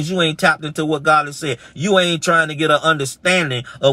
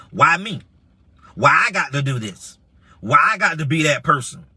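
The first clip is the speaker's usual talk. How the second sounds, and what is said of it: Imitates another person's voice. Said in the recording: “I'm mimicking you.”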